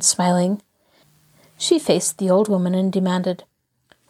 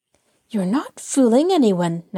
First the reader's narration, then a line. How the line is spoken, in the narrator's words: Nancy replied sharply